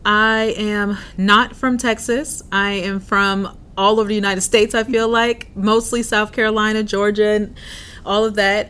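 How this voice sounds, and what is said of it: Southern US accent. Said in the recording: “I can hear some Southern Louisiana maybe in your accent.”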